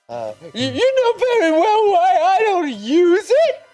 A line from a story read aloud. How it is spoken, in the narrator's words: She screamed